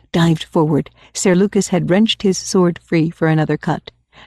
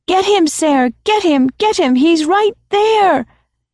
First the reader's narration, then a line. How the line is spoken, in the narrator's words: he heard Egg screaming